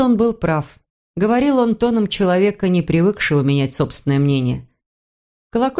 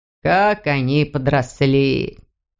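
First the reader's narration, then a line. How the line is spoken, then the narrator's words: Surprised mutter. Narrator (Russian): пробормотал удивленно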